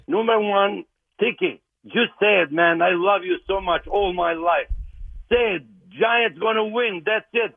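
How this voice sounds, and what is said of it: Speaks with a noticeable accent. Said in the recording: “you guys could laugh at my accent”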